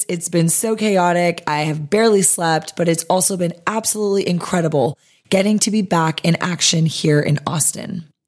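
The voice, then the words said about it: Hoarse, strained voice. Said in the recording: “If you cannot tell by my voice, I've been in the thick of it for the last week or so... I clearly am losing my voice.”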